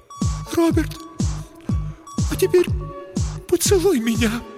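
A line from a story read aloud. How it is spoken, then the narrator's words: Near sobbing. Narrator (Russian): произнесла Елена, едва не рыдая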